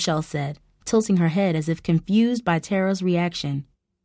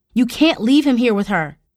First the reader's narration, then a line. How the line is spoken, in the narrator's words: snapped